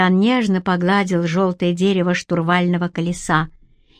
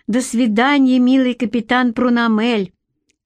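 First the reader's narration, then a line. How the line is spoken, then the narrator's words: Shout. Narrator (Russian): крикнула Литка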